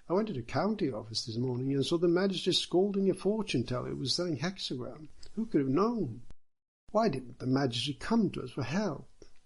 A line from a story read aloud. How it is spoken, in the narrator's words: They all cried, and before they left, one of them … sighed